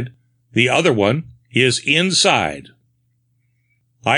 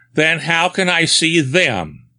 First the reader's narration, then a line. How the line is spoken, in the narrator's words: I exclaimed triumphantly